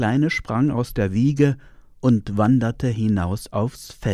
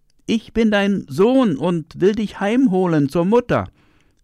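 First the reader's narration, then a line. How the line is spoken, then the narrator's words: Calling from afar. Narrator (German): rief er dem Vater von Weitem zu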